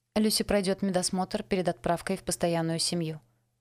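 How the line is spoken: Plain. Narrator (Russian): ответила Стиви

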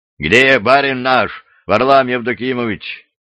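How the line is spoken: Loud question. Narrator (Russian): громко спросили

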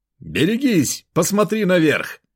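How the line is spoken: Shouted warning. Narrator (Russian): прокричал я, надеясь, что он услышит меня

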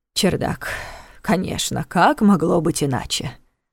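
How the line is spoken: Wistful sigh. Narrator (Russian): вздохнул Неф с тоской

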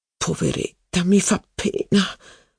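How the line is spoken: Murmured. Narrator (Italian): mormorò la principessa di Parma a Madame de Guermantes

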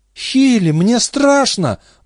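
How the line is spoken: Tearful pleading. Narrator (Russian): взмолился Дэвид, и его глаза заблестели от слез

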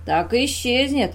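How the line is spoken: Guffawing. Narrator (Russian): захохотал Мамила

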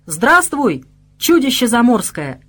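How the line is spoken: Slightly mocking shout. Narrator (Russian): крикнул я чуть насмешливо, пытаясь приободрить Лукаша, да и самого себя тоже

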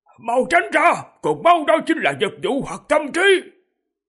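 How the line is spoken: Cracked-voice shout. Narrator (Vietnamese): Ông lạc giọng la lên

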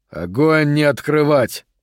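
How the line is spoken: Growled over radio. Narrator (Russian): прорычал он в рацию

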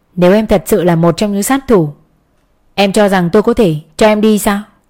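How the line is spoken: Cold voice. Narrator (Vietnamese): Anh chỉ cất giọng lạnh lùng

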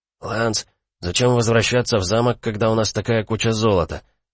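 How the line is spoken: Young man quietly asking. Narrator (Russian): Молодой Риан тихонько задал вопрос

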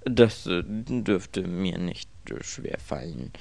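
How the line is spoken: Murmuring. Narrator (German): murmelte Mr

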